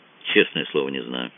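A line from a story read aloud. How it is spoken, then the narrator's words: Quiet, serious. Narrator (Russian): тихо и серьезно сказал Кацуба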